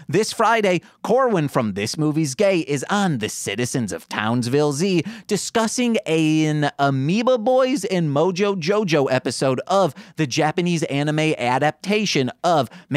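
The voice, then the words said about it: Michigan accent. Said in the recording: “my Michigan accent really comes out when I say Japanese anime adaptation”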